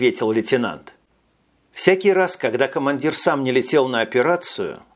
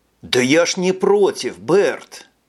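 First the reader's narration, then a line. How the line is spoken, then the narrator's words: Exclaiming. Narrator (Russian): Воскликнул Джек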